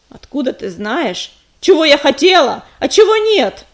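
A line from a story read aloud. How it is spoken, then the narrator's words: Rising angry growl. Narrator (Russian): В голосе ее ясно прозвучало закипающее рычание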